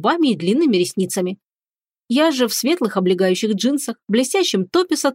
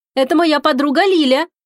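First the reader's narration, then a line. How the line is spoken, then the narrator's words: Shouted into ear. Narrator (Russian): крикнула она на ухо парню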